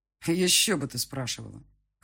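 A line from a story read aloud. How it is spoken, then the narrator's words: Snort. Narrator (Russian): хмыкнул он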